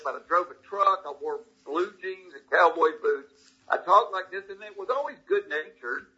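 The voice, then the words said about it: Thick Southern American accent. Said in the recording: “I've got this thick Southern accent ... lose that stupid accent you got”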